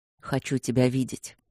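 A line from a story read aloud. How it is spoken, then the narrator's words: Husky, impatient. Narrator (Russian): сказал Кембридж хрипловато, и я услышала эхо своего нетерпения в его голосе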